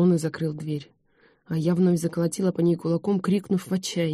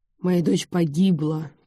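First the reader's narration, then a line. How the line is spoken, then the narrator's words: Hoarse, muffled through door. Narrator (Russian): прохрипел из-за двери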